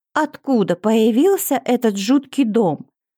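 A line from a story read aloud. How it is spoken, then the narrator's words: Woman's exclamation. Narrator (Russian): воскликнула одна дамочка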